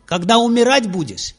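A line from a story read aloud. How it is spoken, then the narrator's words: Shouted. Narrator (Russian): Нарада Муни закричал ему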